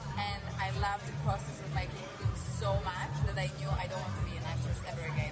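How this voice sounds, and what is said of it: Speaks with a foreign accent. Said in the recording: “my accent limits me”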